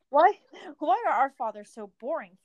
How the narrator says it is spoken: Faramir sighed

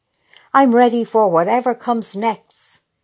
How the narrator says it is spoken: she shouts, not caring who hears

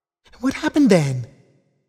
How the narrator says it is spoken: asked Romo excitedly

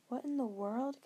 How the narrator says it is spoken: Kendra gasped

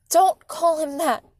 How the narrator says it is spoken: Mom yelled

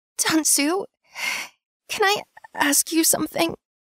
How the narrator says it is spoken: I gasped

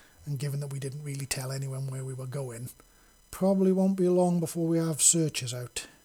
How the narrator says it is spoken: Yumi said with a chuckle

